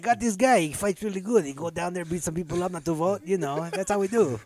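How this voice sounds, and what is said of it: Vague put-on European accent. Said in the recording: “I'm not sure what accent I'm using ... We're just going vaguely maybe European ... Maybe European”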